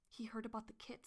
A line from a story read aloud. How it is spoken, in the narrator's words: he whispered